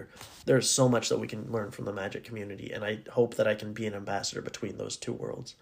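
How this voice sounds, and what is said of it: Raspy voice. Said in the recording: “my voice is raspy,... if I was clearing my throat”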